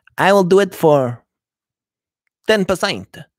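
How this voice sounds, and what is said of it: Bad put-on Spanish accent. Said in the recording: “Excuse my very bad Spanish accent.”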